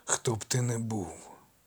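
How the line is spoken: Muffled growl. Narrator (Ukrainian): Глухо прогарчав амфітріон

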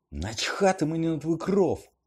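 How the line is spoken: Furious shout. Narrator (Ukrainian): розлючено вигукнув Гаррі

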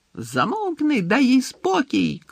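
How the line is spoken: Shouted. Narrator (Ukrainian): крикнув Пікс

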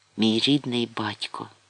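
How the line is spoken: Whispered. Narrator (Ukrainian): прошепотів Нерон

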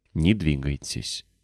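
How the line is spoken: Whispered, boy. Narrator (Russian): прошептал мальчик

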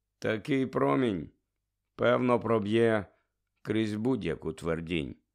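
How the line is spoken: Calm speech. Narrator (Ukrainian): промовив спокійно парк

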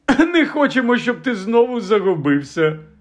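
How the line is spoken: Laughing. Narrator (Ukrainian): розсміявся Фадж

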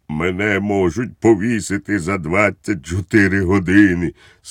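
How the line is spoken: Sad, shaking voice. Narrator (Ukrainian): сумно відповів Балоун, трясучись усім тілом

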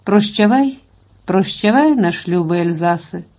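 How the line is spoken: Muffled mutter. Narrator (Ukrainian): ховаючи своє гідне обличчя у власну пахву, бурмотів

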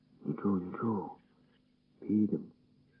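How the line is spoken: Quiet. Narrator (Ukrainian): тихо сказав він

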